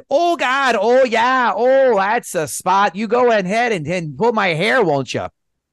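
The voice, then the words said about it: Put-on Minnesota accent. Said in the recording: “in that Minnesota accent”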